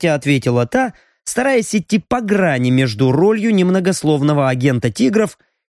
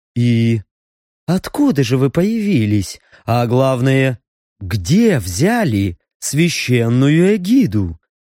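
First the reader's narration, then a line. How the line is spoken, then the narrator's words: Deceptively gentle questioning. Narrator (Russian): Обманчиво ласково продолжил расспросы старший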